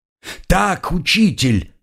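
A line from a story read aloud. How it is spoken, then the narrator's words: Crowd yelling. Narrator (Russian): снова завопила толпа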